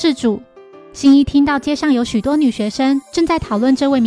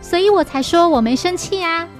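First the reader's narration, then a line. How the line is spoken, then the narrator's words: Laughing. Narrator (Chinese): 小兰并笑着说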